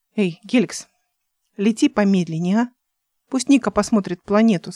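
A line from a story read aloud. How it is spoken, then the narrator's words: Plain. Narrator (Russian): сказала она Геликсу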